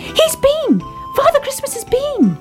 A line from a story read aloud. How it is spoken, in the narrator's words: cried Baby Ted